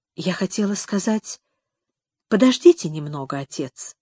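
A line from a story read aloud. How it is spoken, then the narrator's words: Quiet and meek. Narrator (Russian): проговорила она тихо и смиренно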